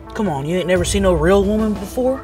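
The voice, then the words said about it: Put-on Southern US accent. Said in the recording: “And you have an accent? I thought you were from Queens. ... We're in the South. Everybody talks this way.”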